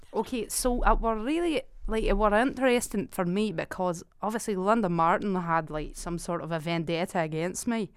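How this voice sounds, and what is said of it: Put-on regional accent. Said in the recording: “Sorry, I'm losing the accent.”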